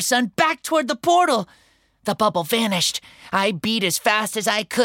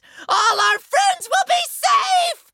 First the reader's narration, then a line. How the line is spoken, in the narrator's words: I shouted